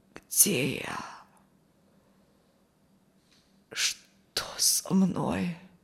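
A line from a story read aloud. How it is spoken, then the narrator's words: Creaky voice. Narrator (Russian): Проскрипел Алексей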